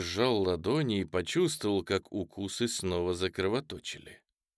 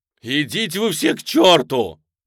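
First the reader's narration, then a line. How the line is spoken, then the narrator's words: Shout. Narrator (Russian): закричал он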